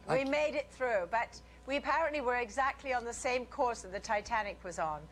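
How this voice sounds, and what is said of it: Transatlantic British-American accent. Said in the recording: “you are from Britain, that you always lose your accent about halfway over the ocean ... I'm sort of transatlantic. Actually, I better get my American accent back up again.”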